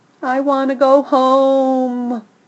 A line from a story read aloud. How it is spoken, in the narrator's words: Rocky howls